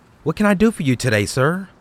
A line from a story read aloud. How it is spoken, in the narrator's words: asked